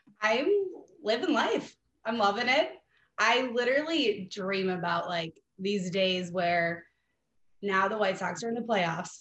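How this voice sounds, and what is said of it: Slightly raspy voice. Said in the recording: “your voice being a little raspy”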